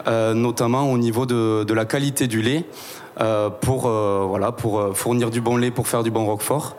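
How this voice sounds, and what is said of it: Southwestern French accent. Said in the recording (French): “tout le monde entend, tu as un accent ... c'est l'accent euh, du sud-ouest, quoi, hein, l'accent tarné, euh, l'accent aussi un peu avéronnais”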